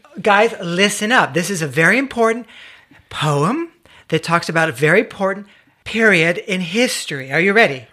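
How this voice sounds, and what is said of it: Cultured kindergarten-teacher voice. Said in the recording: “your cultured accent voice kind of thing going on? ... like cul- his kindergarten teacher accent ... do something with that, that voice of yours”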